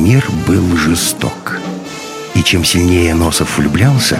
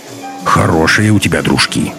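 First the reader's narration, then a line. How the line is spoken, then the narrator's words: Grumbling. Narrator (Russian): проворчал Носов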